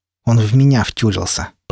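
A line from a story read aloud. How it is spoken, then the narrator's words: Scornful, through teeth. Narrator (Russian): процедила Марьяна, кривя губы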